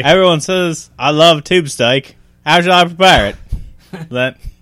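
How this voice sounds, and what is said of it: Poor put-on Australian accent. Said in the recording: “How do you do Australian?... I'm like you had a stroke, though... I'm not the best at accents.”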